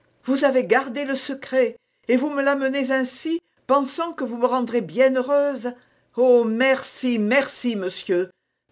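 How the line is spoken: Grateful exclamation. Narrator (French): s'écria madame de Chevreuse

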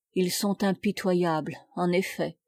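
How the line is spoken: Low muffled murmur. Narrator (French): murmura-t-il d'une voix sourde

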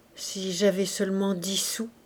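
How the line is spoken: Low murmur. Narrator (French): murmura Gervaise à voix basse

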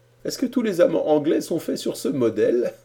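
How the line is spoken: Laughing. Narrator (French): dit-il en riant

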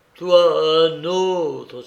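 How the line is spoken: Exclaiming. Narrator (French): s'exclama

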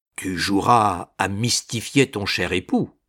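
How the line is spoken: Plain. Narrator (French): dit César

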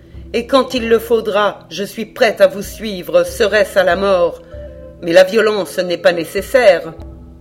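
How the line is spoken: Coldly. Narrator (French): dit-elle froidement

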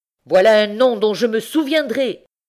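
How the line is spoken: Vindictive old man exclaiming. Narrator (French): s'écria le vieillard vindicatif

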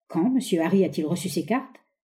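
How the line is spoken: Curt question. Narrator (French): demanda-t-il d'une voix brève

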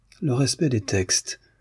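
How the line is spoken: Murmured. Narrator (French): murmura Demian

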